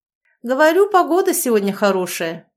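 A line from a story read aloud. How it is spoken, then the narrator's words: Cheerful chuckle. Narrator (Russian): весело хмыкнул Егор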